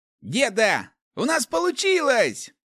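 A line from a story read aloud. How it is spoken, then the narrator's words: Joyful call. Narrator (Russian): радостно замахал рукой Руди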